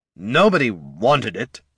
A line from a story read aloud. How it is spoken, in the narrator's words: snarled the lich